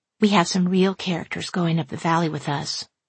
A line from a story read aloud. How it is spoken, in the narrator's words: Laura whispered to me